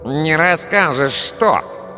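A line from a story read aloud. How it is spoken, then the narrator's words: Nasal voice nearby. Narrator (Russian): спросил гнусавый голос рядом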